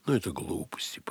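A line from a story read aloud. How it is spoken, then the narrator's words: Muttering. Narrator (Russian): пробормотал Эрвин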